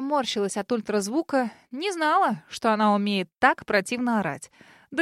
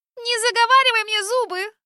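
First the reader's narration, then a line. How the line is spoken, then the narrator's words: Shrill yell. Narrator (Russian): визгливо провопила Мия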